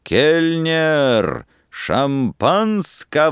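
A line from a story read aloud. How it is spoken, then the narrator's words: Booming shout. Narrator (Russian): кричал зычным голосом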